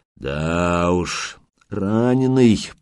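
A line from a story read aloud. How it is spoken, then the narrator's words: Drawling. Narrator (Russian): протянул он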